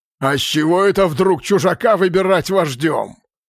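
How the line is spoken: Loud inquiry. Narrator (Russian): громко осведомился Мерк

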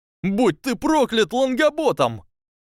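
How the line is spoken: Yelling. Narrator (Russian): завопил Рон Уизли

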